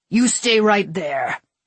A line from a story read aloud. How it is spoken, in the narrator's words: he snarled